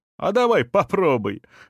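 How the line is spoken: Laughing. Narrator (Russian): засмеялся он

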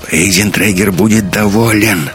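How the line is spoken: Hoarse voice. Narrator (Russian): хрипло сказал Славен

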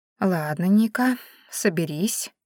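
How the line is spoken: Whisper under breath. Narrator (Russian): прошептала я себе под нос

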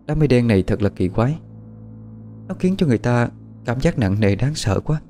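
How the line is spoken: Soft lament. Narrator (Vietnamese): Bích Nguyệt khẽ than

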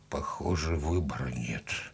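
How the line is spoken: Muttered. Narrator (Russian): пробормотал Алексей

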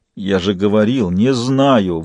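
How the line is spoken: Forced, strained words. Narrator (Russian): выдавил Ахматов

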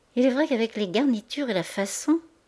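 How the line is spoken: Murmuring. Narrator (French): murmura Madame Marty

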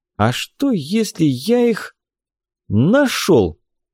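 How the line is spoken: Slow. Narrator (Russian): Медленно сказал я

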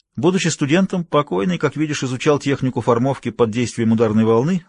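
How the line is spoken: Plain. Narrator (Russian): сказал Югава

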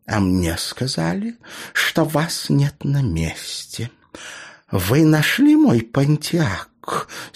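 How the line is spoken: Bitchy hiss. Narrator (Russian): стервозным голосом прошипела дамочка

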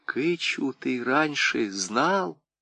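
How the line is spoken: Whispered question. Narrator (Russian): Анис шепотом спросила

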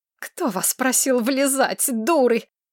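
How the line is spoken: Hissed with hatred. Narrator (Russian): с ненавистью прошипела Корнелия

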